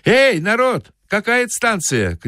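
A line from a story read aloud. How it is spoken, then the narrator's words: Shouting. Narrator (Russian): крикнул он солдатам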